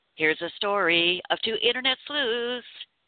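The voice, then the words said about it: Sung like the Brady Bunch theme. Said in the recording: “that was my Brady Bunch song imitation ... that was really obnoxious”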